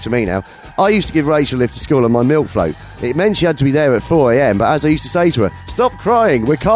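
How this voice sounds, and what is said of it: Usual voice. Nothing is said of it.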